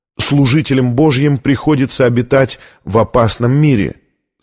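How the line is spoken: Plain. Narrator (Russian): сказал камерарий

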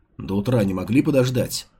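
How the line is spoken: Guard's gruff mutter. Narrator (Russian): буркнул охранник

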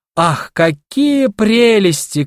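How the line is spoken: Delighted shouting. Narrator (Russian): кричали они с восторгом

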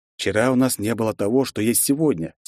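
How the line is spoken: Calm objection. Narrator (Russian): спокойно возразил я

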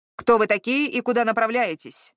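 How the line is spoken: Booming leader's voice. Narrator (Russian): прогремел голос лидера отряда

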